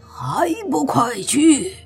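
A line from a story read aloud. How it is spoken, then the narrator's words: Loud roar. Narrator (Chinese): 莫凡大声的吼道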